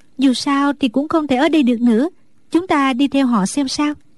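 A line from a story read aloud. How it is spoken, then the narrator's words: Sighing. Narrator (Vietnamese): Đinh Đan thở dài nói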